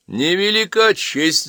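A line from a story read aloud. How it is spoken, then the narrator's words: Laughing. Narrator (Russian): засмеялся Недошивин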